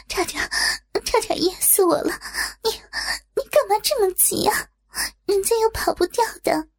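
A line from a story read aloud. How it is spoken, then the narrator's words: Panting after coughing. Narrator (Chinese): 连咳了好几下之后，才大口大口的喘着气说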